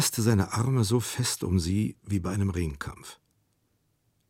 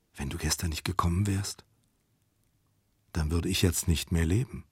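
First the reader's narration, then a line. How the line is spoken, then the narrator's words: Very soft whisper in ear. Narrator (German): sehr leise flüsterte sie in sein Ohr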